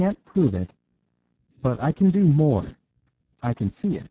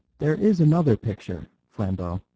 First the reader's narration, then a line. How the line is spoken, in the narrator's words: said Brown, in his more mystical undertone